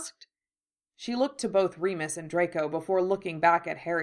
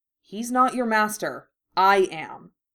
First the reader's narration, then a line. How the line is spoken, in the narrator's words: said sharply